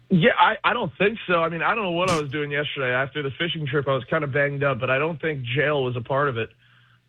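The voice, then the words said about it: Hoarse, strained voice. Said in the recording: “are you losing your voice?”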